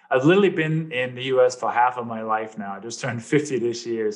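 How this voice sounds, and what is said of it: Slight Danish accent. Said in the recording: “people may detect a little bit of an accent... I came from Denmark”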